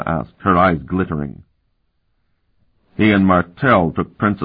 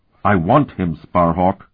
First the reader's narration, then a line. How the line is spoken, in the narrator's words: she said fiercely